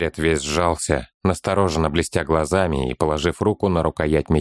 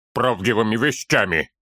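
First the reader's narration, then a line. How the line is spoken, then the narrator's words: Sudden sharp retort. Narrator (Russian): вдруг резко бросил Торин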